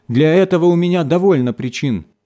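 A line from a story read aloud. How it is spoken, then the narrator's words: Shouting. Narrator (Russian): закричала она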